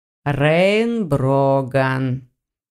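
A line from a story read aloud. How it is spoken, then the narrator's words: Slow. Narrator (Russian): медленно проговорил ректор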